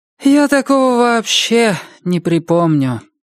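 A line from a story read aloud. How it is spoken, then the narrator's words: Heavy sigh. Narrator (Russian): Сэнди тяжко вздохнула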